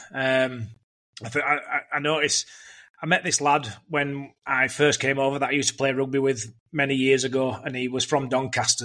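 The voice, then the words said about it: Yorkshire English accent. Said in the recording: “My Yorkshire tone's not fully left me ... No, you've still got that, mate”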